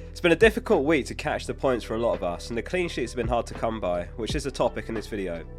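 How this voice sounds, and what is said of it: Sick, under-the-weather voice. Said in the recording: “I'm a bit under the weather, so if you can hear it in my voice, that's why.”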